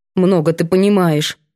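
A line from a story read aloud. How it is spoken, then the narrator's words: Angry grumble. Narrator (Russian): ворчит сердито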